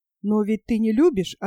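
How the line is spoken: Plain. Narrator (Russian): ответил я

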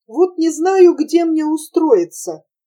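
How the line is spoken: Warm smiling voice. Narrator (Russian): ласково заулыбался Приперентьев

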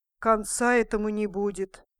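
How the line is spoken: Grumbling. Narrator (Russian): проворчала черепаха

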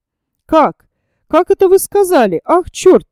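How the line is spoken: Astonished exclamation. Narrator (Russian): воскликнул пораженный Кириллов

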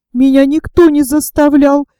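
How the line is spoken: Timid babbling. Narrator (Russian): пролепетал Боря

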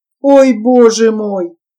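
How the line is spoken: Whimpering. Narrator (Russian): Петя даже захныкал от этих расспросов

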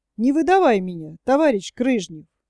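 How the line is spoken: Quiet laughter. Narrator (Russian): засмеялся тихонько

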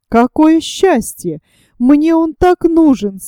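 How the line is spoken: Joyful young woman exclaiming. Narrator (Russian): с радостью воскликнула девушка

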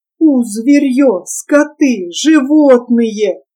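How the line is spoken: Father groaning through teeth. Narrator (Russian): сквозь зубы стонал отец

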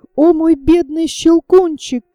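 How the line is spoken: Sobbing exclamation. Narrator (Russian): воскликнула, рыдая

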